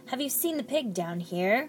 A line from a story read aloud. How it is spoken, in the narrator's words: growled the cook